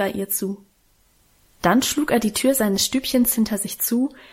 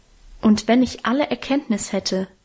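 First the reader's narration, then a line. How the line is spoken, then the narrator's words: Plain. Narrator (German): sagt der Apostel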